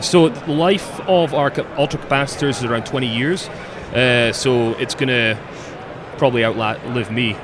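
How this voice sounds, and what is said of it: Scottish accent. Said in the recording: “that's quite an accent you have there... I'm from Scotland.”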